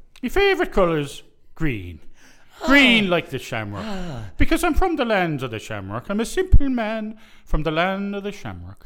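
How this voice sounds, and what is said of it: Put-on Irish accent. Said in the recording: “you have to answer in your Irish accent”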